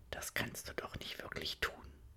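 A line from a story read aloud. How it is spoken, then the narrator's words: Soft embarrassed inner whisper. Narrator (German): wispert diese leise Stimme in ihr, die sich bisweilen verlegen zu Wort meldet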